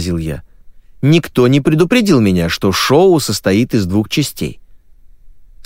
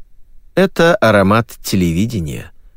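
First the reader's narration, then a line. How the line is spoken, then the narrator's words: Sighing. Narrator (Russian): вздохнул я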